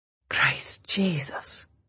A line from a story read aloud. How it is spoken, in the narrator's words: he said softly